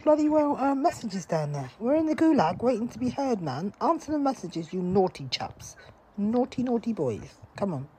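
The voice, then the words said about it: British English accent. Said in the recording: “English? That was English? ... British. ... English girl. British. ... you sound like you got a British accent.”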